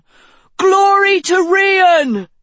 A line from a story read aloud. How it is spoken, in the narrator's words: shouted another